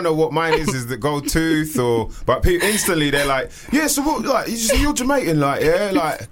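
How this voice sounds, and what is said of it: Usual voice. Nothing is said of it.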